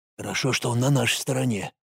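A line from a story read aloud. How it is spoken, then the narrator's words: Soldier's distant whisper. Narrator (Russian): донесся до Алекса шепот одного из бойцов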